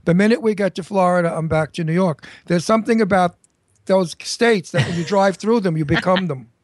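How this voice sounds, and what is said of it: Heavy New York accent. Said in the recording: “as you can hear, I have a very heavy New York accent, which I keep”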